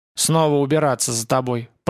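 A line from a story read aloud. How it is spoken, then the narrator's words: Grumbled. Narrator (Russian): пробурчал Рапунг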